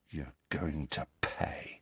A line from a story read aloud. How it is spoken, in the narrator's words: said Malfoy, in a voice barely louder than a whisper